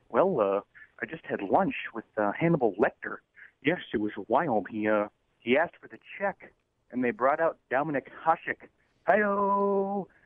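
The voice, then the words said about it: Bad Johnny Carson impression. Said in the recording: “bad Johnny Carson impersonation”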